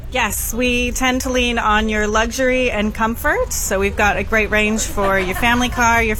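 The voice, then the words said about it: American accent. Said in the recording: “you got a bit of an accent... I'm from Idaho originally... Oh, America, hey?”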